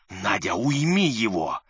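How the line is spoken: Hiss. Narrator (Russian): прошипел Ипполит

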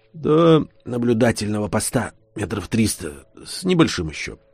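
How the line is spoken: Whisper. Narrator (Russian): прошептал Кузьмич

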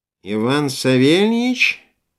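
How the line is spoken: Nasty nasal voice. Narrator (Russian): осведомилась трубка препротивным гнусавым голосом

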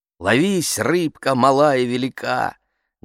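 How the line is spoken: Loud recitation. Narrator (Russian): Громко цитирую

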